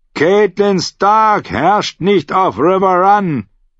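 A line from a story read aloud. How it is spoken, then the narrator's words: Shouting back. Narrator (German): schrie Sir Robin zurück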